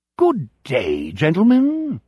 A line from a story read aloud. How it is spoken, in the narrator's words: Lord Malshun says in his most pleasant voice